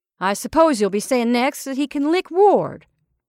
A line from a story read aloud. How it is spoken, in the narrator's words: Kelly snapped